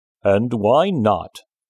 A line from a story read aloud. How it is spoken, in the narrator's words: the lion asked in his deep, rumbling voice